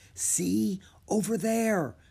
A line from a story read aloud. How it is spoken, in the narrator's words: she whispered